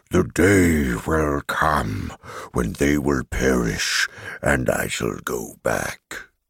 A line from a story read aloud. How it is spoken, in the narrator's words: I heard him growl in the tongue of bears